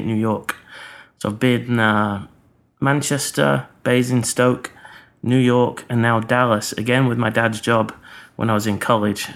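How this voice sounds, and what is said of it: Mixed English and American accent. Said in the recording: “accent's a real mixture. I often get accused of a bit of Dick Van Dyke off Mary Poppins. That's how shit my accent”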